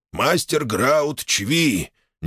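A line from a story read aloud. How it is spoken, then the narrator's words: Reluctant, forced out, orc. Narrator (Russian): нехотя выдавил из себя орк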